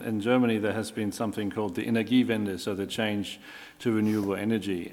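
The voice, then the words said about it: German accent. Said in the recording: “as you can hear from my accent, I'm German”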